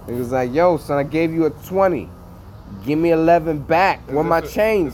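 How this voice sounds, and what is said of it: New York accent. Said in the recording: “Your New York accent? ... Yeah, that's my New York. That's my New York.”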